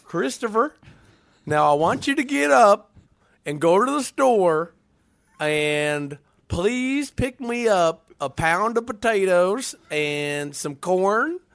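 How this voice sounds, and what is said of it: Put-on Southern US accent. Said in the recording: “Did you like my Southern accent? ... It was really good. ... Better than I was expecting.”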